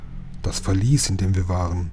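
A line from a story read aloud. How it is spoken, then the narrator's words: Murmured aside. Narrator (German): raunte Lukas Jim zu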